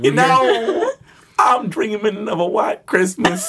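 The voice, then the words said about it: Imitates another person's voice, singing. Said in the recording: “my Bing Crosby impression.”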